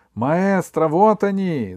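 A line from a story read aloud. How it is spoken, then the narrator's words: Yelling from darkness. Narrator (Russian): заорал Катарсис из темноты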